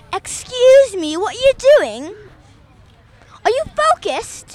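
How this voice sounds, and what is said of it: Strict Australian woman teacher voice. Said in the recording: “a middle-aged, black-haired, strict Australian woman teaching a class ... do your impression of her”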